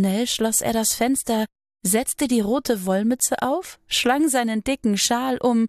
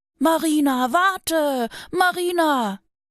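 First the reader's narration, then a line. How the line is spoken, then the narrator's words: Little bear calling. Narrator (German): rief der kleine Bär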